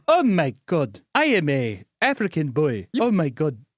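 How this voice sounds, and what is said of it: Put-on African accent. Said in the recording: “Do that African impression you do all the time.”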